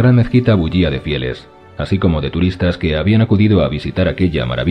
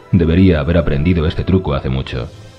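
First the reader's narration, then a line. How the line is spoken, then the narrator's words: Plain. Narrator (Spanish): respondió Julie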